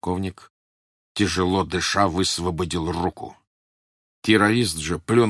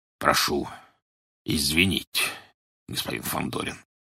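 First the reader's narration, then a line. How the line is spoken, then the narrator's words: Reluctant grumble. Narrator (Russian): нехотя проворчал Петр Иванович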